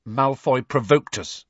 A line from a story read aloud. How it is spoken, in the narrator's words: said Harry stiffly